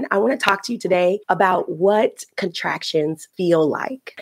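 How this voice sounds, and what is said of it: Raspy, deep voice. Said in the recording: “you can hear my voice and I am a bit raspy. I didn't anticipate on sounding like Barry White today”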